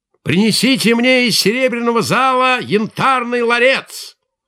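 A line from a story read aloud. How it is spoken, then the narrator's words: Angry shout. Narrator (Russian): Рассердился он и закричал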